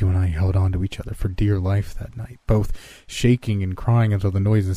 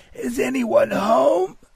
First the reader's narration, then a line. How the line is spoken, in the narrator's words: Now through tears, the voice yelled